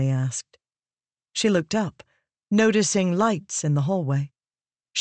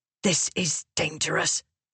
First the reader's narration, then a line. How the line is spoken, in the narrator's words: Venli hissed to reprimand